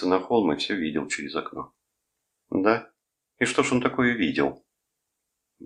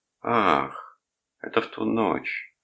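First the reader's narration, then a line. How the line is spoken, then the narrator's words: Sighing. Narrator (Russian): вздохнула она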